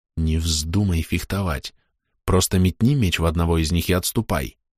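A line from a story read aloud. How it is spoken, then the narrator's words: Quiet. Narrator (Russian): тихо сказал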